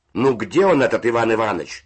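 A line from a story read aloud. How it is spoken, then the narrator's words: Shout. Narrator (Russian): закричал голос верхних нар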